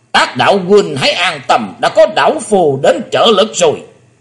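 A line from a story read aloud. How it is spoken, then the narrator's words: Old man's booming roar. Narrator (Vietnamese): Vạn Bát Kỳ Trân là chính lão nhân đã gầm lên tợ như chuông đồng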